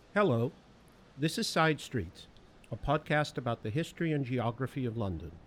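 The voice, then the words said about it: Non-London accent. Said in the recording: “Despite my accent, I've been prowling London”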